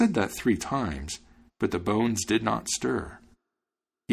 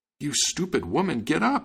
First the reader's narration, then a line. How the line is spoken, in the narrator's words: cried